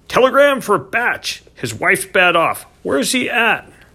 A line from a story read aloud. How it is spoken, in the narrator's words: the man shouted